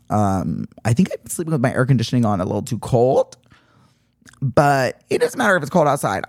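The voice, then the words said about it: Subdued, raspy voice. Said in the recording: “I have a little bit of cough ... can hear it in my voice or if I sound a little subdued or raspy, ... I do wake up with a throat that literally sounds like it's been abused by a cheese grater”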